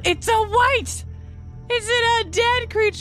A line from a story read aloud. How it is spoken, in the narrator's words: she's just kind of like happy yelling, like not at anybody in particular